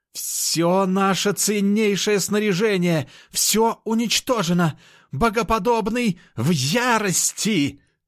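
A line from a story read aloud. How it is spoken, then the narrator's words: Shouting. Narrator (Russian): Кричал эльф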